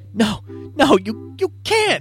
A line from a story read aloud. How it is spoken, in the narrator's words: gasps